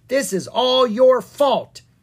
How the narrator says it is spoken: they shouted at each other

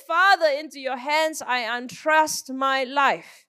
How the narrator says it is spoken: Crying out in a loud voice, Jesus said

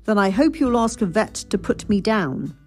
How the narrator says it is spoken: his mother said crossly

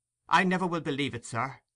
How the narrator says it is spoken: replied the old lady firmly

